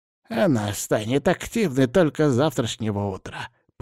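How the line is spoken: Creaky old woman. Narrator (Russian): проскрипела бабка

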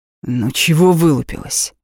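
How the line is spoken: Harsh bark. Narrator (Russian): рявкнул

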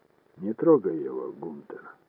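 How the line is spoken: Calm speech. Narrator (Russian): спокойно сказал Ройл

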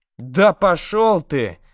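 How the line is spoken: Quick shout. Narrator (Russian): тут же крикнула Мира

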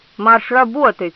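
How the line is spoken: Growling. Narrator (Russian): зарычал Деметрио

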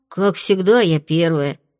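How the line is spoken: Sighing grumble. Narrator (Russian): Фло вздохнула, буркнув

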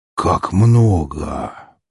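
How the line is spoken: Awed grumble. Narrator (Russian): проворчал Орик, с благоговением

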